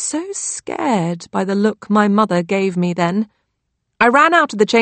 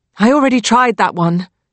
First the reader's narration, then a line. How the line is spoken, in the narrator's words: Nancy snapped